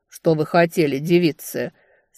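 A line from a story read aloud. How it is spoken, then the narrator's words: Deep bass question. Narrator (Russian): спросил он удивительно густым для столь отощалого создания басом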